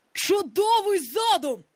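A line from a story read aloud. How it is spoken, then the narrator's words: Exclaimed. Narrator (Ukrainian): вигукнув Гак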